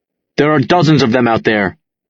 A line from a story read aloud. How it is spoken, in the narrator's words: he snaps